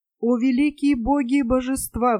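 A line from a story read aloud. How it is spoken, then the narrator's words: Pleading. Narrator (Russian): взмолился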